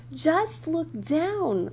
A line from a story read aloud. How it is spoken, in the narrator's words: Lily cried